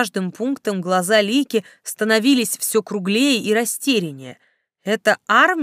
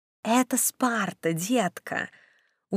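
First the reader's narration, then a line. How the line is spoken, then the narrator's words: Snide whisper. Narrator (Russian): от Снежки ехидный шепот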